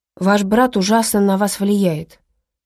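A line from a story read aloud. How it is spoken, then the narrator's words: Grumbling. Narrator (Russian): проворчала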